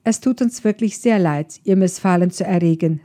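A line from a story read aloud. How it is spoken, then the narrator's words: Calm. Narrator (German): sagte er ruhig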